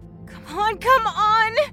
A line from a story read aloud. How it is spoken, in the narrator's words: She whimpered